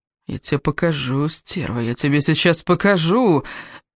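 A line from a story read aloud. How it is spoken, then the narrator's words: Hoarse snarl. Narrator (Russian): хрипел он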